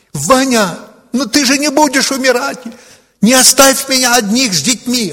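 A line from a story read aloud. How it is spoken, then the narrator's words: Desperate scream. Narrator (Russian): И когда он уже при смерти, она закричала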